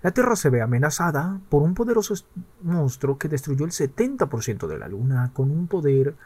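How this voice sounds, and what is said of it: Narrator voice. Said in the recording (Spanish): “voz de narrador.”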